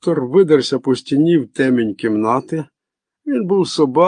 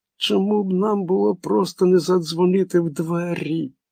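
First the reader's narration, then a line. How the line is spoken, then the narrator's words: Moaned. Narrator (Ukrainian): простогнала Мег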